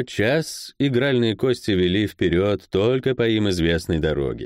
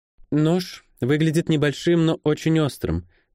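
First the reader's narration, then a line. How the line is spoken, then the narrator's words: Calm. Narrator (Russian): спокойно сказала она ему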